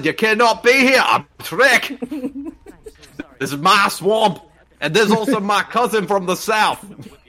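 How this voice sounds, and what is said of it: Attempted Scottish accent sounding Southern. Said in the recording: “I tried to do a Scottish accent and it just went completely like southern”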